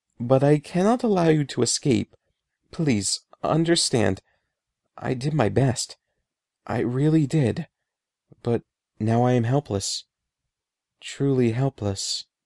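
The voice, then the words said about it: Trembling voice. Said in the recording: “he said in a trembling voice.”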